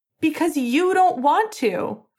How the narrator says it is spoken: Finn shouted

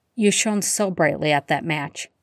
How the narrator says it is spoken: he murmured

